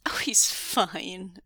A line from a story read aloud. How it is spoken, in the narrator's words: Su Yang laughed